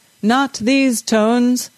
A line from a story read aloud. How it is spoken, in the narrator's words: the bass singer bellowed